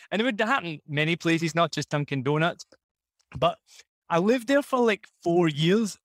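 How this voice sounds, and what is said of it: Scottish accent. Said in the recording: “Oh, your accent's so cute ... I'm from Scotland”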